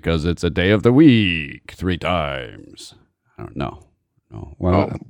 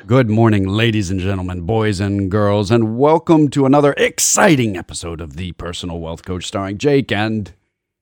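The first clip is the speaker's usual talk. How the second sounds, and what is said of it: Announcer-style radio voice. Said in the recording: “that's it for the radio voices ... Exercising my radio voice”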